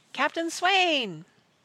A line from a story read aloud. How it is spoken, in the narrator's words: Praiseworthy shouted up at the pilot house